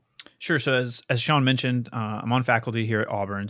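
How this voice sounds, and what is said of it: Calm public-radio announcer voice. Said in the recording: “NPR voice”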